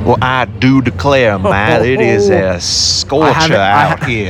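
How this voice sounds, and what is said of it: Put-on Southern accent. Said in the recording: “I love his accent. It's fantastic. ... That southern hokum.”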